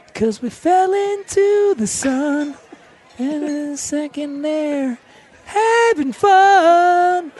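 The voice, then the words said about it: Singing in falsetto. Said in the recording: “You have a great falsetto, man.”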